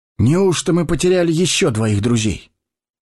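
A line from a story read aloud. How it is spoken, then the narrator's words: Sad. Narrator (Russian): печально произнес он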